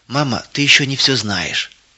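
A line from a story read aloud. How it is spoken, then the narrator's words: Whisper. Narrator (Russian): прошептала Кристина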